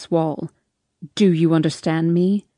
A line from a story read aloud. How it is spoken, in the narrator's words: He growls